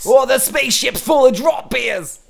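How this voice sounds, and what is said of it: Weak put-on Australian accent. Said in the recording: “I've been working on my Australian accent. It's not good, but I'm getting better... always make sure the last part's questioning and high pitch.”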